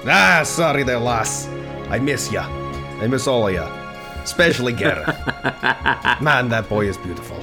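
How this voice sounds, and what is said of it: Put-on Scottish accent. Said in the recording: “so that's where the accent comes from ... I never said I could do a Scottish accent”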